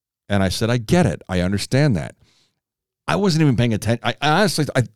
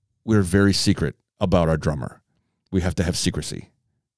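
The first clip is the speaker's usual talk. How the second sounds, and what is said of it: Put-on Russian accent. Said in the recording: “I'm going to butcher this because I'm going to do a Russian accent.”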